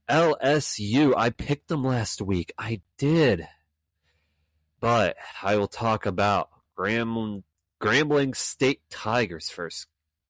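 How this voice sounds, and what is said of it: Hoarse, strained voice. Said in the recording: “I'm starting to lose my voice”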